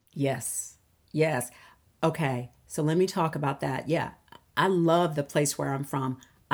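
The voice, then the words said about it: Southern American accent. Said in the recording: “I love the fact that I have a Southern accent. I do.”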